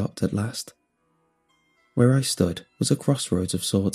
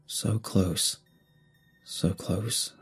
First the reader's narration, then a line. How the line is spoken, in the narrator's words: murmured